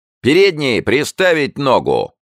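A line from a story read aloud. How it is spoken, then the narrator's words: Yelling. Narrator (Russian): он вопил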